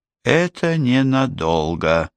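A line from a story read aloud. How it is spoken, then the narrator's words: Grim promise. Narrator (Russian): мрачно пообещала Кэтрин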